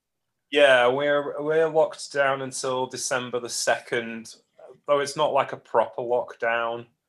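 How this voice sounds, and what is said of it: Congested voice from a cold. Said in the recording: “I've got a bit of a cold”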